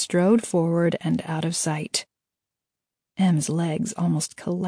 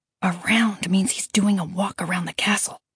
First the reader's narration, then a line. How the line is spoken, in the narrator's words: Aaron whispered